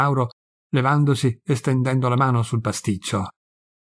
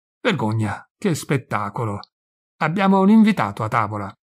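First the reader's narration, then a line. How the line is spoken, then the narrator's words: Powerful shout. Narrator (Italian): Gridò con poderosa voce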